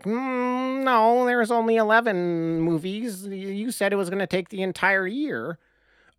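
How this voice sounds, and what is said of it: Mocking nerdy voice. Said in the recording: “you have a fantastic nerd voice.”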